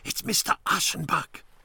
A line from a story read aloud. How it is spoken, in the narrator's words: whispered